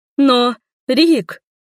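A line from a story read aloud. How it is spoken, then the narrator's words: Sobbing woman. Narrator (Russian): всхлипнула леди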